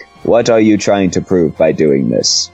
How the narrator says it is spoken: He asked calmly as he could muster

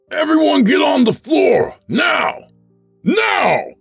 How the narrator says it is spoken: The intruder bellowed

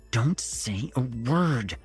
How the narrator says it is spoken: he hissed

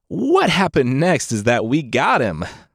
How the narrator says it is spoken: Poseidon laughed

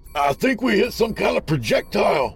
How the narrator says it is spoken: Dell cried out

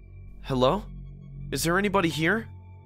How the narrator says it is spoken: I said nervously

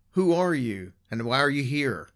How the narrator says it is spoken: They called out

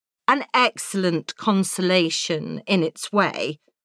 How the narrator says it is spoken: said Elizabeth

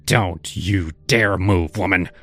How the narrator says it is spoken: he snarled

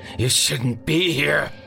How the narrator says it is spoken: he finally snarled

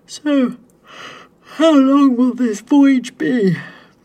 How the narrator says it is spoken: Adam finally yawned

